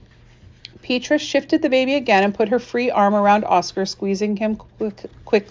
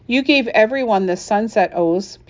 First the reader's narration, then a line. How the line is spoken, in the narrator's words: Petra said